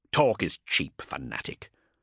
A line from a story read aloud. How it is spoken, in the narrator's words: Cestus snarled